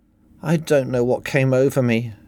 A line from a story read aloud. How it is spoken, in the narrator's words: Helen sighed